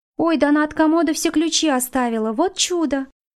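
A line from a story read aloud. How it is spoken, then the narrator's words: Exclamation. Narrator (Russian): воскликнула Феня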